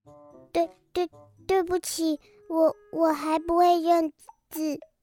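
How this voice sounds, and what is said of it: Quiet, timid voice. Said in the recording (Chinese): “有点害怕，他小声地说”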